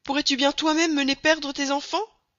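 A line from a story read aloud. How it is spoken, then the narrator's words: Woodcutter's wife exclaiming. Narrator (French): s'écria la bûcheronne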